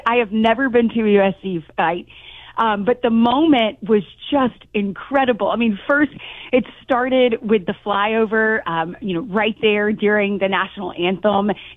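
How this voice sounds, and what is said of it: Hoarse, strained voice. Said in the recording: “you can tell I've kind of lost my voice because I was so into it”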